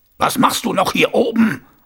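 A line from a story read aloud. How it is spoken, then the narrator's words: Thundering. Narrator (German): donnerte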